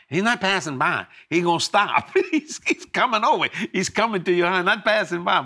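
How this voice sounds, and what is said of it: Natural Cajun accent. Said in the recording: “You have an accent. You don't have to force it. It's there already.”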